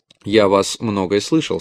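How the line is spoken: Plain. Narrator (Russian): сказал Грек

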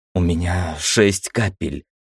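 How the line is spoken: Hoarse mutter. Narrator (Russian): хрипло пробормотала Ира

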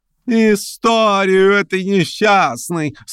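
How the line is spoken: Drawl with spiteful laugh. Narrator (Russian): со злобным смехом протянула Прасковья Ивановна

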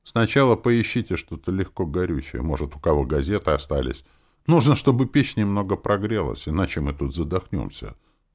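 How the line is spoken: Plain. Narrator (Russian): сказал Давид

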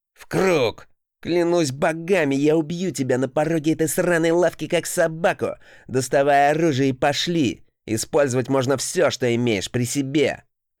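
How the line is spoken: Angry near-growl. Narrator (Russian): рыжеволосый покраснев и почти прорычав

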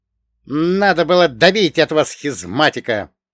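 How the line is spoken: Angry. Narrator (Russian): зло произнес Богдан

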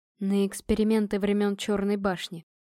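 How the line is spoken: Gloomy reply. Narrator (Russian): мрачно ответил Адриан

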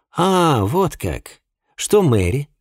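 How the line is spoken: Plain. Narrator (Russian): спросил Джеймс

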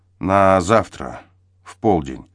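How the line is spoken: Strained after a sigh. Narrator (Russian): на миг вздохнувшись, выдавил

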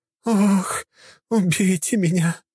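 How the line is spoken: Moaning. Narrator (Russian): стонала Лина

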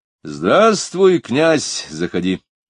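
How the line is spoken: Said loudly. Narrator (Russian): громко сказал

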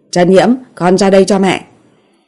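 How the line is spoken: Loud angry call. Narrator (Vietnamese): Tần Vi tức giận không chịu nổi, nói to một tiếng

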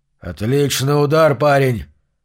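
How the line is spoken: Hoarse, blood-choked giant. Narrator (Russian): хриплым голосом выговорил гигант, и изо рта у него хлынула кровь

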